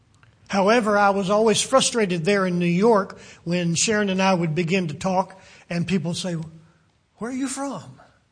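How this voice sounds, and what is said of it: American regional accent, possibly Southern. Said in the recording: “they recognize I'm from America. They've heard my accent ... they could probably even pinpoint what part of the country that I'm from by my accent ... they always seemed to guess that I was from Kentucky”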